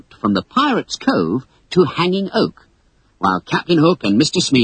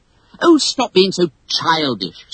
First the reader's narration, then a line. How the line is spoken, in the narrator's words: snapped Wendy